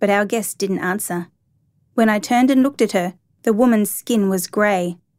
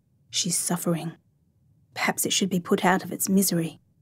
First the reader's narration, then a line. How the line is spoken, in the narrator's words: her voice dropped an octave